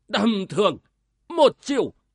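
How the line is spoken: Bursting laughter. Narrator (Vietnamese): Ba Đà Hồng cười phá lên nói

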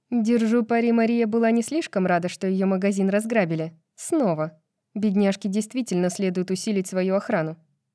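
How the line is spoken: Snide, while chewing. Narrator (Russian): говорит Адина между укусами, ехидно улыбаясь

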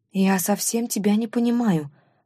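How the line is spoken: Sighing after a pause. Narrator (Russian): вздохнула через несколько секунд женщина

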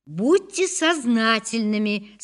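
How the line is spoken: Plain. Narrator (Russian): сказала я

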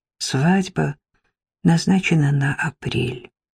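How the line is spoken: Quiet announcement. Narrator (Russian): тихо сообщила она

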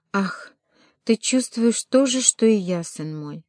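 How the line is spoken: Sighing. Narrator (Russian): вздохнул папа

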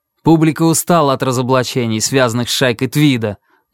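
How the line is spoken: Angry, defensive tone. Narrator (Russian): начал тот зло, но с оттенком самозащиты

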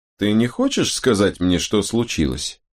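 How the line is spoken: Plain. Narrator (Russian): спросил Анхель

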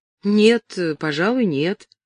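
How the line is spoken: Uncertain reply. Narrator (Russian): неуверенно ответила Эллен

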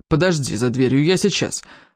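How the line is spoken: Responded irritably, male. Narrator (Russian): раздраженно откликнулся он

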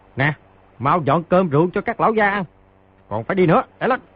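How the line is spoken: Loud shout. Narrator (Vietnamese): quát lớn

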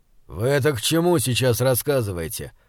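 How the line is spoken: Irritated speech. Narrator (Russian): раздраженно произнес Бокун

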